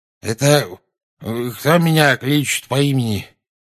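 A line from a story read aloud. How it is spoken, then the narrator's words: Sleepy mutter. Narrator (Russian): сонно пробормотал наземникус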